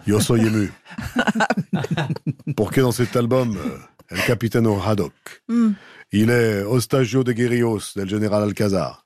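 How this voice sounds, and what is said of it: Mock Spanish Desperados accent. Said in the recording (French): “mon accent de Desperados”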